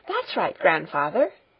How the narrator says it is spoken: she exclaimed

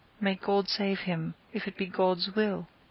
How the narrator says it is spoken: The poor girl, true to her stern theology, gasped out

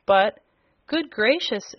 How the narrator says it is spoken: exclaimed the surprised Jimfred

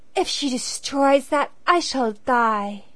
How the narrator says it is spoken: cried the girl

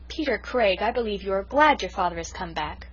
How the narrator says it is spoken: cried the Story Girl

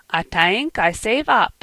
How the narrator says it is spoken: she said with a giggle

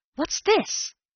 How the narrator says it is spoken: I gasped

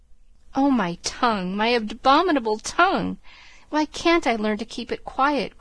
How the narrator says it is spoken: groaned Joe, remembering words which had been her undoing

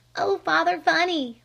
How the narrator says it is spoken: pleaded Flame

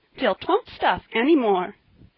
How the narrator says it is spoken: cried Polly merrily

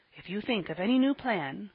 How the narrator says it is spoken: whispered Ben behind his hand

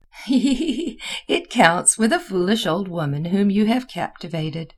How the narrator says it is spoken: replied Mademoiselle with her wriggling laugh

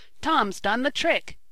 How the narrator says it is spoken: yelled Ned

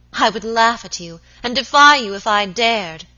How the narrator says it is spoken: she cried

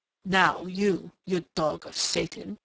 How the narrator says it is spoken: he snarled in a sudden snapping of restraint

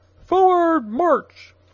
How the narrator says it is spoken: the captain screamed to the private

